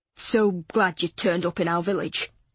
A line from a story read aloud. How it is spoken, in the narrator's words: he said, his voice gruff